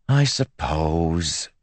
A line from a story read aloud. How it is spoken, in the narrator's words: she said, sighing